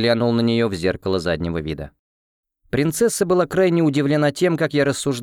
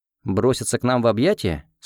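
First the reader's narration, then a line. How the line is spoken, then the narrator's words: Plain. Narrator (Russian): спросил я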